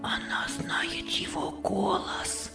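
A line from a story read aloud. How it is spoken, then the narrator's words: Boys whispering. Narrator (Russian): шептались мальчики между собою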